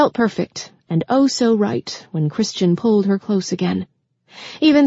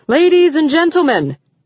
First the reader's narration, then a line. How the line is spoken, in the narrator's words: the voice of the master of ceremonies boomed out through the speakers